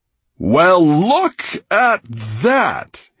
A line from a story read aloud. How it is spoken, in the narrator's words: he cried